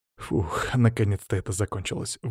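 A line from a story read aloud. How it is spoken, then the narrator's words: Relieved exhale. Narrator (Russian): выдохнул я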